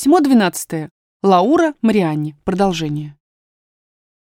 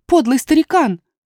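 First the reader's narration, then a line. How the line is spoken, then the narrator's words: Exclaiming. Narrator (Russian): воскликнула София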